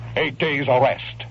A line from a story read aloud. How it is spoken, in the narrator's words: barked Lieutenant Andre